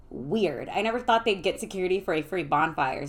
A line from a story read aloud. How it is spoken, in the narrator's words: said Jessica